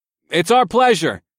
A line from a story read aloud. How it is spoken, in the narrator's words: I yelled back so she could hear me